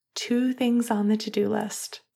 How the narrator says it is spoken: Finn whispered against his skin

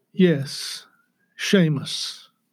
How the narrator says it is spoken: he softly replied

